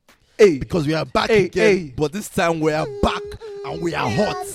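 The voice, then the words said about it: Excited shouting. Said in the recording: “I'm very sorry for shouting, but I am so hyped today.”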